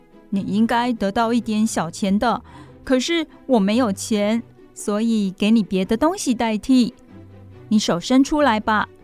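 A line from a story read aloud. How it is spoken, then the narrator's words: Laughing, cheerful. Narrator (Chinese): 笑着对我说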